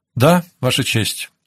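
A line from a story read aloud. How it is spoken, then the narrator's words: Ringing, clear voice. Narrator (Russian): ответил Ануэль звонким и четким голосом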